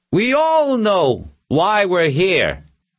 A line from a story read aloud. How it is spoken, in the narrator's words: called out again